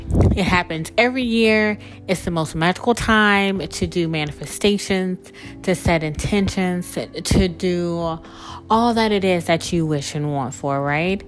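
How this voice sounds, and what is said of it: Excited, enthusiastic voice. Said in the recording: “I'm so excited about, as you can tell in my voice”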